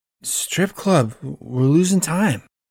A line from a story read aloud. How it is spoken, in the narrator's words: Jack slurs